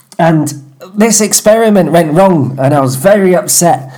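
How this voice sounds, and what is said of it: Put-on Mancunian accent. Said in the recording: “let me get my accent a bit more right ... You're considerably more Mancunian than the last time ... I'm John Cooper Clarke reincarnated, aren't I? Yeah. That's the accent.”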